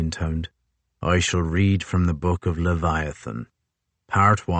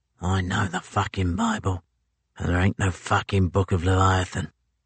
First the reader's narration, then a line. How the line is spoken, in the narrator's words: Crozier heard a toothless Erebus in the third row mutter